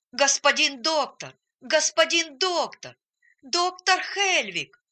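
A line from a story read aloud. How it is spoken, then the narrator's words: Shouting with all his strength. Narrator (Russian): крикнул он изо всех сил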